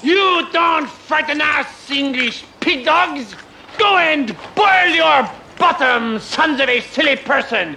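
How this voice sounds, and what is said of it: Exaggerated fake French accent. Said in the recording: “I'm French. Why do you think I have this outrageous accent”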